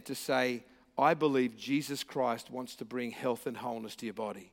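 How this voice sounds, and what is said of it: Australian accent. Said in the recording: “I'm here from Australia with a funny accent”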